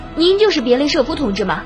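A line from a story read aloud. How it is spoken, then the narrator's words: Eager young man asking. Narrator (Chinese): 年轻小伙子急忙上前，迫不及待地问道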